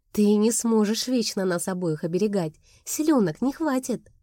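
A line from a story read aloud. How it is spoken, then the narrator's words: Snort. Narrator (Russian): Он хмыкнул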